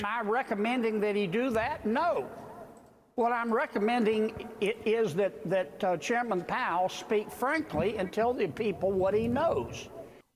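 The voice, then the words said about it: Southern American accent. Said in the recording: “that Southern accent is, ... Charm”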